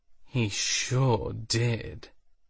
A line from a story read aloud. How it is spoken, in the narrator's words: the other woman said with a slight purr in her voice